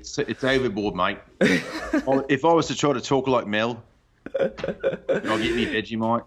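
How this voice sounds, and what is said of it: Exaggerated cartoonish Australian accent. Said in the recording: “You sound like how Simpsons impersonate Australians.”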